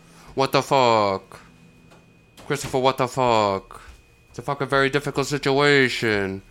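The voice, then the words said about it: Imitates a TV character's voice. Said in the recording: “doing my Tony voice”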